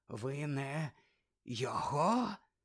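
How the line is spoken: Whispered. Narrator (Ukrainian): зашепотів Кравч

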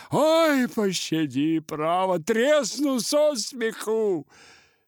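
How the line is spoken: Said through loud laughter. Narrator (Russian): Ноздрев продолжал хохотать во все горло, приговаривая

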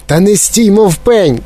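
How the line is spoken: Shouted. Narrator (Ukrainian): крикнула пані Глуп на пана Глупа

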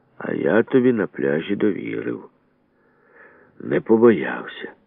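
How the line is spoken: Gendarme speaking very quietly. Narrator (Ukrainian): жандарм тихо так тихо каже

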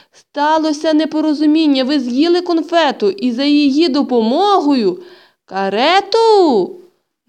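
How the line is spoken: Shout. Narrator (Ukrainian): закричала Ганна Петрівна

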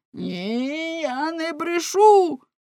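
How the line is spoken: Exclaiming fishmonger. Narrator (Ukrainian): вигукнув рибник

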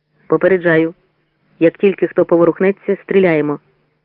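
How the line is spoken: Plain. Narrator (Ukrainian): сказав Анч

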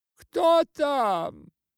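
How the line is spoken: Alarmed shout. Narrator (Russian): закричала кумова жена, услышав шум в сенях

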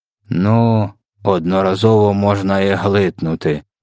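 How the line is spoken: Grumbling bloodsucker. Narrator (Ukrainian): буркнув кровопопивач

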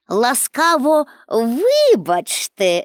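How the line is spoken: Laughing. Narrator (Ukrainian): засміялася

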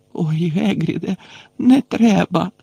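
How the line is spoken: Moaned. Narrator (Ukrainian): застогнала Герміона

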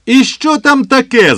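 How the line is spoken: Shouted. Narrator (Ukrainian): закричав

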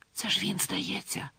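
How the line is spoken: Whispered. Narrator (Ukrainian): зашепотіла вона

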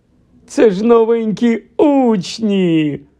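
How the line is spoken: Fat monk, smiling exclamation. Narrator (Ukrainian): вигукнув гладкий чернець, усміхаючись до них

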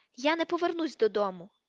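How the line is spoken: Angry tearful shout. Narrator (Ukrainian): крикнула Джинні з сердитими слізьми на очах

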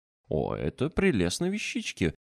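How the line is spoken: Cheerful child's exclamation. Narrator (Russian): воскликнуло дитя, весело

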